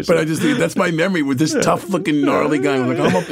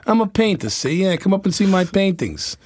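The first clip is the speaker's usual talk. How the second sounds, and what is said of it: Tough New York accent impression. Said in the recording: “my impersonation. Come on. I'm spot on here ... It's a terrible, impersonation ... he was such a New Yorker to me ... He's got a little more of the Bronx in there, I think, than that.”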